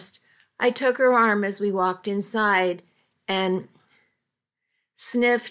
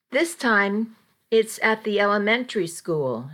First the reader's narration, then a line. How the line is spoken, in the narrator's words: she said